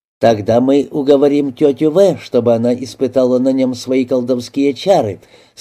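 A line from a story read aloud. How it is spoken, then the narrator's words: Plain. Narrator (Russian): сказала Фрида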